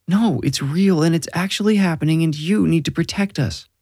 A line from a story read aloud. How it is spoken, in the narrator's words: Robin cried